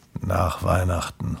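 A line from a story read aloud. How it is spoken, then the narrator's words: Murmuring. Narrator (German): murmelte Grimpel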